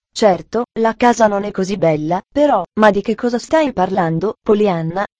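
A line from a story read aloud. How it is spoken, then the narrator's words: Plain question. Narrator (Italian): chiese Pendleton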